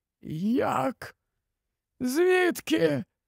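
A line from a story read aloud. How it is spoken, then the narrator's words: Hoarse. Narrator (Ukrainian): Олівандер прохрипів ці запитання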